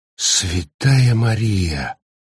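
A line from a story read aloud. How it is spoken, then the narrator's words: Whisper. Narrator (Russian): прошептал Макфрайс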